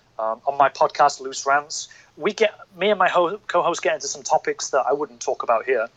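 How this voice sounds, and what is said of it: Northern English accent. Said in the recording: “my accent's from the north”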